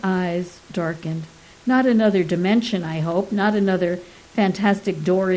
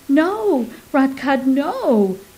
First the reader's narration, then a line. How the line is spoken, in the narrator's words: cried his old books